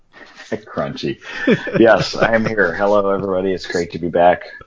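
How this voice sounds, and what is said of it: Slightly odd voice from a cold. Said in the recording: “Sorry if my voice sounds a little odd. I'm fighting a little cold here.”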